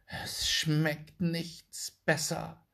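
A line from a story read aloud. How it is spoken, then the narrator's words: Plain. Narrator (German): sagte sie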